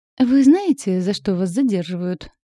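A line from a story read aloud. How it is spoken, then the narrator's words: Smooth ingratiating question. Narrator (Russian): вкрадчиво спросил полицейский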